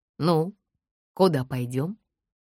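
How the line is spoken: Gentle asking. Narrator (Russian): ласково спросил Юр

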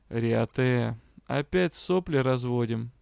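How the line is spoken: Lazy question. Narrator (Russian): Лениво поинтересовался он

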